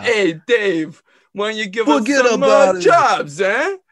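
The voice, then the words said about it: Put-on New York accent. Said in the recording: “New York accent.”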